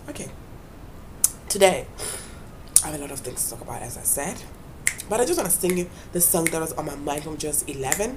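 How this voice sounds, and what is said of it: Weak, fading voice. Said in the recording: “this flu is on the most ... my voice isn't that good now ... this voice just keeps on going away”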